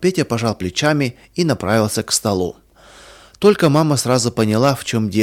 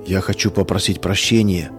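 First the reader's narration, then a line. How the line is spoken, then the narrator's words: Barely audible. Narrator (Russian): чуть слышно проговорил Саша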